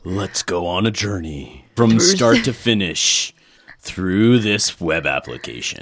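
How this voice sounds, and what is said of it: Dramatic movie trailer narrator voice. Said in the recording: “do the movie voice”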